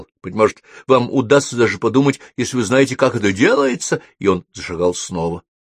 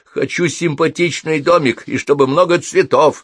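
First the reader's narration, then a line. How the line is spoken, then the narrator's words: Plain. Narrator (Russian): ответила она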